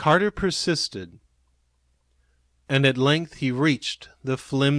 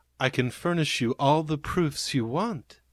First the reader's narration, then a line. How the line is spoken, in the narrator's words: said Carter gently